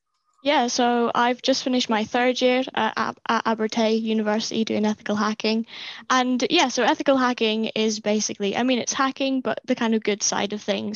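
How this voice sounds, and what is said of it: Distinctive regional accent. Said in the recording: “I do love that accent,”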